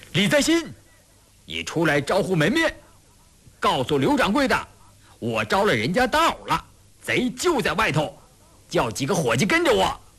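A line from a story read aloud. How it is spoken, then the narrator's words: Angry shout. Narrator (Chinese): 他顿时大怒，冲里边喊道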